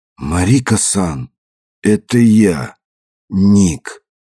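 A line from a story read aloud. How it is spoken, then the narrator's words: Gasp, trembling voice. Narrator (Russian): Уайт ахнул и дрожащим голосом произнес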